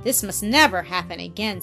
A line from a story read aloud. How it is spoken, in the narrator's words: said the lady sternly